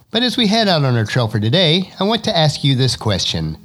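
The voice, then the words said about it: Raspy, hoarse voice. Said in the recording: “my voice is starting to get a bit stronger, so I hope my raspy voice is not too distracting ... sinusitis or cold, which hit me pretty hard”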